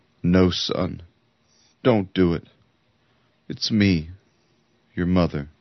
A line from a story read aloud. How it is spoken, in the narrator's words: she cried